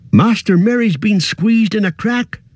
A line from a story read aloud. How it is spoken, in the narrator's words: cried Sam